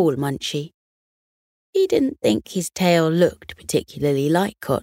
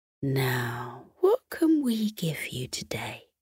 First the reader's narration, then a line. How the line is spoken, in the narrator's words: She muttered under her breath